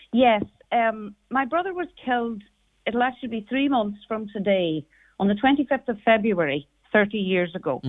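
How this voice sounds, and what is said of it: Irish Donegal accent. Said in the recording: “this is a Donegal accent and not a Monaghan one”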